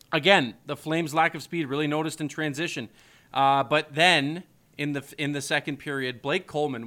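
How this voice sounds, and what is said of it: Hoarse, sick-sounding voice. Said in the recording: “my throat's getting... I'm still getting over this cold. I'm still getting over this sickness. You could probably still hear it in my voice,”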